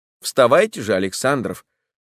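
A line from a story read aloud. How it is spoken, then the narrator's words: Calm. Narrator (Russian): сказал спокойно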